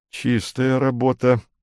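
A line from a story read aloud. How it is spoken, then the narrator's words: Muttered. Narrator (Russian): пробормотал флагман Макумбер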